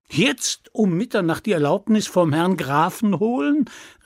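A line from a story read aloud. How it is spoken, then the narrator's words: Young man exclaiming. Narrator (German): rief der junge Mann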